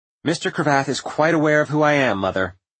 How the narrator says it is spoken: said Agnes more sharply than he would have imagined

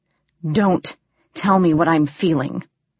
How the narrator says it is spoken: he growled

